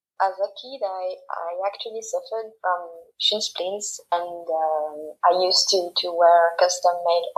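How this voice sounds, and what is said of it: Slight French accent in English. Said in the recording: “we can hear a little bit of a French accent”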